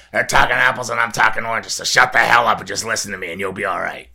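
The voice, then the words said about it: Imitates another person's voice. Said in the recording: “Add that to the impression. Compilation.”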